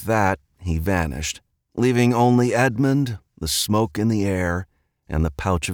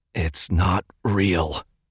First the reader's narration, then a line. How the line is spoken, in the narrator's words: he muttered to himself, throat pained by the words